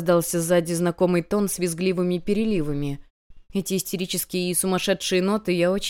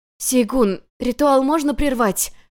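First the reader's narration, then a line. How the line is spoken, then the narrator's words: Hoarse, coughing blood. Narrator (Russian): прохрипела я, кашляя кровью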